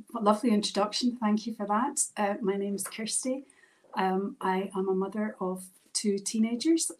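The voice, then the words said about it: Scottish accent. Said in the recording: “She's from Scotland. I absolutely love her accent.”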